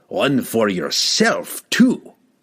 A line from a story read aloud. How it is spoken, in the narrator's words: the enraged dwarf growled